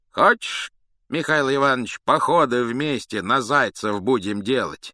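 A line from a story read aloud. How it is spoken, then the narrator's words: Plain. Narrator (Russian): сказал он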